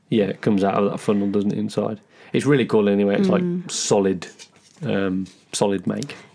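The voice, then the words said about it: Strained, fading voice. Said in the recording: “I'm losing my voice here.”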